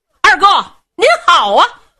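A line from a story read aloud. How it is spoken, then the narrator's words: Calling out. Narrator (Chinese): 有人叫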